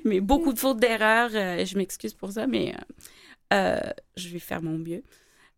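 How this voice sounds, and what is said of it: Speaks French with a non-native accent. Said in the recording (French): “Excusez mon français. ... J'adore ton accent. ... j'adore ton accent.”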